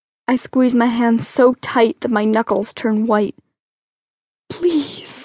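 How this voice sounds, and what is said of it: Usual voice. Nothing is said of it.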